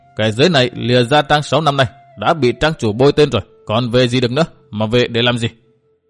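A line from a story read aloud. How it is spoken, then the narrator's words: Dry mocking laugh. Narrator (Vietnamese): Hắn đáp qua tiếng cười nhạt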